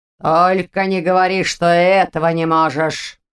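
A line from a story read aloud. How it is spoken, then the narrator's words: Barked. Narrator (Russian): рявкнул магистр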